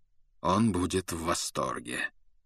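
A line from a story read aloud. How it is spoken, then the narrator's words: Cold. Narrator (Russian): холодно заметил Люпин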